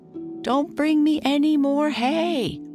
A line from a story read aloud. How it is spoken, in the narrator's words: Tom called out